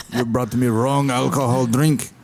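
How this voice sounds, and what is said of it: Put-on Russian accent. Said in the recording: “he sounded like Putin... Russian accent”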